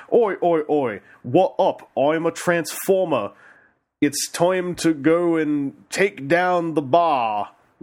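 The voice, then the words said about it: Put-on English accent. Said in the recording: “the humans in this area all speak like this ... my English accent”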